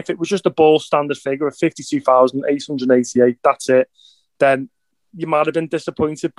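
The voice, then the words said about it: Elated, excited voice. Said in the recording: “I'm just over the moon, Mick, as you can hear in my voice.”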